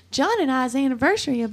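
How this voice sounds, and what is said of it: Put-on Southern accent. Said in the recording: “went into a little Southern accent”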